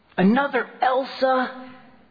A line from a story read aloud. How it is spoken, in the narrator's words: exclaim upon seeing her for the 10th time last Halloween